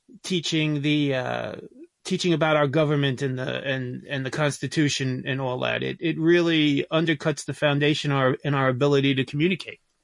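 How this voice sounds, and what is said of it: New York City accent. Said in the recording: “somebody who has an accent ... You definitely sound like the city you're from New York City.”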